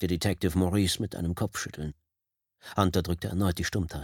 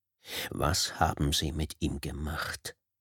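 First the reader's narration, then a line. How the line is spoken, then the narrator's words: Icy question. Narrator (German): fragte Hunter mit eisiger Stimme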